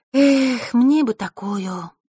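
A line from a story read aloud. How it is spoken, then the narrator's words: Sighed. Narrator (Russian): вздохнула Василиса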